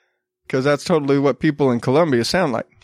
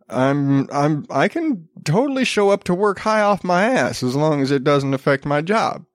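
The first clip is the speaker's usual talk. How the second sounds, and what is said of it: Put-on Appalachian accent. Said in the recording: “I don't know why I always default to that really, like, Appalachian accent.”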